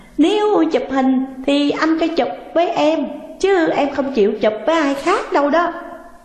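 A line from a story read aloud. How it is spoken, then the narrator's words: Cheerful, laughing reply. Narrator (Vietnamese): nét mặt hớn hở, cô cười rồi đáp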